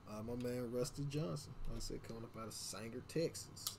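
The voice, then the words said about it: Put-on Southern accent. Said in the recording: “I just gotta say that with a southern accent”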